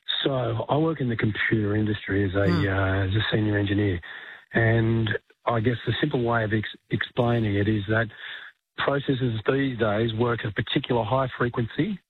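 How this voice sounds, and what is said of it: Hoarse, croaky voice. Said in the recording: “I've got a bit of a frog in my throat today”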